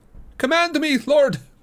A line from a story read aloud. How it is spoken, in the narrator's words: he cried